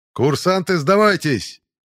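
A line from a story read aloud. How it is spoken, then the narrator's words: Shout after laughing. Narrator (Russian): крикнул одаренный в костюме, отсмеявшись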